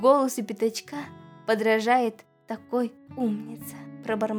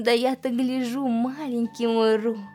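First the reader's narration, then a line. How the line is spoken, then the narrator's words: Plain. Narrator (Russian): сказала Кенга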